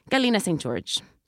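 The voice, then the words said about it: Put-on exotic accent on a name. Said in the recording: “I give her a little accenta ... I give her so much like accent”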